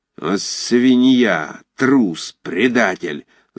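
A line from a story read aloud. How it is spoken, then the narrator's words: Vicious hiss. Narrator (Russian): злобно зашипел Файбиш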